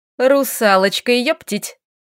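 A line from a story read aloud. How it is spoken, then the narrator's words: Giggling. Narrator (Russian): хихикнула Лилька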